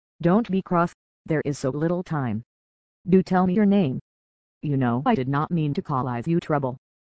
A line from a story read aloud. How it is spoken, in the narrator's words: looked scared to death and his voice trembled as he said in a rush